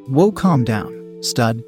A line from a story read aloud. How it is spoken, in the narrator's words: said Jenna